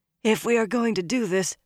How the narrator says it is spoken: Min said hoarsely

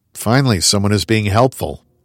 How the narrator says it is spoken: I muttered

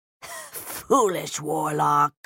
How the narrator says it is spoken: Agrimon wheezed

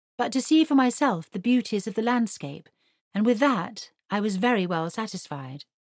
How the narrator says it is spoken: replied Mary as evenly as she could

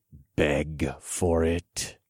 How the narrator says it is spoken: I growled into her ear

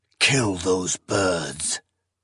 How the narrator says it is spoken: Zorias hissed

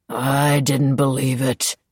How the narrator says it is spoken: the harbormaster growled

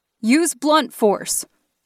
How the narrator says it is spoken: I shouted

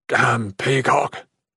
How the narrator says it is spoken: Regent Ogbith grumbled

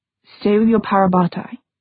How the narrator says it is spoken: he said finally, so quietly that no one else could hear them

